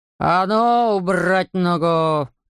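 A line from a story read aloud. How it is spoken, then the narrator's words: Big man's growl. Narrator (Russian): зарычал здоровяк на Эндрю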